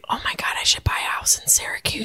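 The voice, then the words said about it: Whispering. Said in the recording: “I don't know why I'm whispering.”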